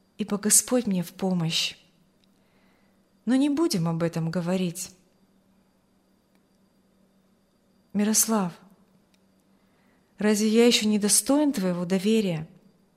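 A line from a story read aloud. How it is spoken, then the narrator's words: Sad question. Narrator (Russian): спросил Аурелий печально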